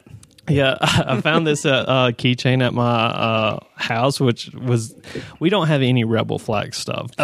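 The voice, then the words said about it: Southern American accent. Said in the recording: “Despite what my accent sounds like, we don't have any Rebel Flag stuff ... American by birth, Southern by the grace of God”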